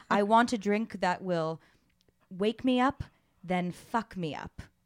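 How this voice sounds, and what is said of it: Exaggerated hint of British accent. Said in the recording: “I'm not even going to try to do a British accent, but I'm going to allude to it in a freaky way.”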